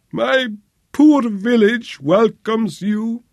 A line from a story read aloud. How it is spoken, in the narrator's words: whimpered Imtopo